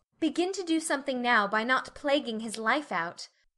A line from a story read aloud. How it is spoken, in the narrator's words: said Meg sharply